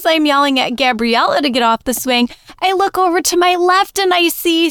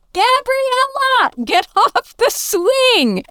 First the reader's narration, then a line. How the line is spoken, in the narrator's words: I yell